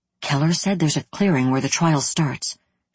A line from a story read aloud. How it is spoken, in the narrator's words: she whispered